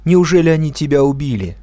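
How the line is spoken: Shouted. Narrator (Russian): кричала

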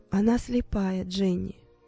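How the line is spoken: Soft. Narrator (Russian): мягко сказала тетя Розмари

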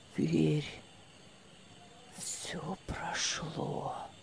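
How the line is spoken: Whisper. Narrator (Russian): Прошептал он

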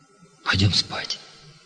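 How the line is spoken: Whisper. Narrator (Russian): шепнул Юрига

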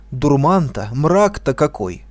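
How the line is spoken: Exclaiming. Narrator (Russian): воскликнул он

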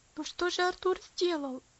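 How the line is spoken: Pleading. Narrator (Russian): взмолился Герберт

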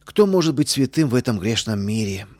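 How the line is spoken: Deep sigh, justifying herself. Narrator (Russian): глубоко вздохнула она, оправдываясь

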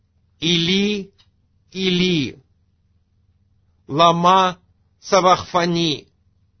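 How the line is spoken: Loud crying out. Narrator (Russian): возопил Иисус громким голосом

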